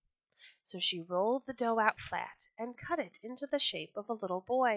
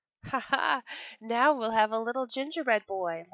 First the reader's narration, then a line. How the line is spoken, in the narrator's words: laughed she